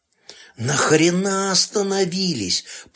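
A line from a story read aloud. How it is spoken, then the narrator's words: Groaning. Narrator (Russian): простонал Турченко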